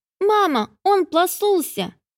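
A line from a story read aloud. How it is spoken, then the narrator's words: Loud shout. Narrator (Russian): Громко крикнуло это нечто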